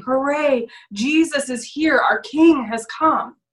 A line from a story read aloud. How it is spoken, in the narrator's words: people were shouting